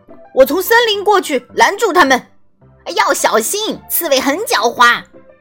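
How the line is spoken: Shouting. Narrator (Chinese): 贝利奥喊道

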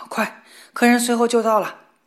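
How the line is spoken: Shouted. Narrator (Chinese): 主人冲他喊道

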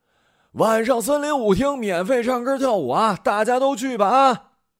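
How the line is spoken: Shouting in the street. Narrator (Chinese): 苏红跟赵阳在街上喊

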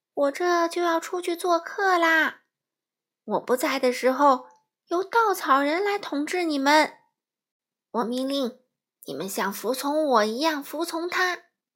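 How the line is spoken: Loud announcement. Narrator (Chinese): 奥兹大声对所有人说

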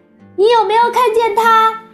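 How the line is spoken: Calling out. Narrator (Chinese): 查理叫道

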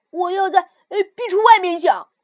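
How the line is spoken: Quick shout. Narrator (Chinese): 物质马上叫道

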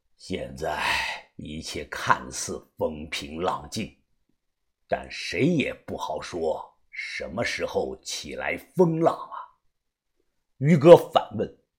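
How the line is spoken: Calm, flat. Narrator (Chinese): 他淡淡的说道

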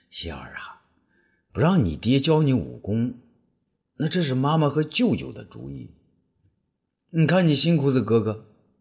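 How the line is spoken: Gentle. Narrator (Chinese): 温柔地说

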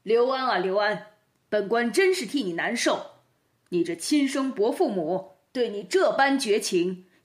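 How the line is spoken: Feigned angry demand. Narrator (Chinese): 包公假作恼怒脸色，喝问刘安

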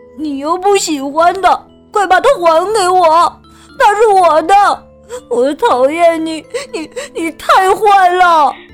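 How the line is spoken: Crying child, sobbing. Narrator (Chinese): 小男孩哭了，不停的哭

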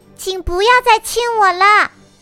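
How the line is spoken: Loud. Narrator (Chinese): 她只是大声的说

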